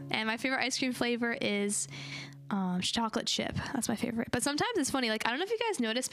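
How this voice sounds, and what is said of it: Slightly hoarse voice. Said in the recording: “apologize for my voice if it's a little bit like hoarse. I'm getting over a cold”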